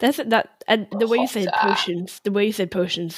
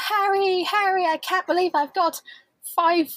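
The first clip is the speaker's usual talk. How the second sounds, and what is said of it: Imitates a Harry Potter character's voice. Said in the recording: “I'll try to to do an accent from somebody in Harry Potter ... Hermione.”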